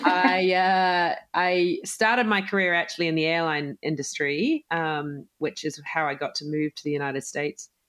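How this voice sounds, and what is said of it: New Zealand accent. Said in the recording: “as you can tell from my accent, I am from New Zealand”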